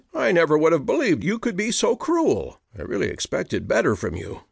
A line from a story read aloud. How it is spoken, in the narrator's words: exclaimed